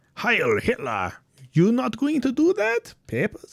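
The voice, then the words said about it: Weak attempted German accent. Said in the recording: “my fucking German accent's not there right now ... I can't nail it right now ... My accents are sucking.”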